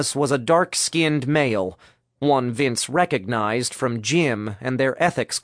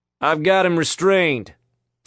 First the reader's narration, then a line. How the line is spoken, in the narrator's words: Thomas called out